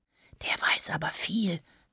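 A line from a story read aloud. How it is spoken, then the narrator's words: Whisper into ear. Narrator (German): flüstert Selim Samira ins Ohr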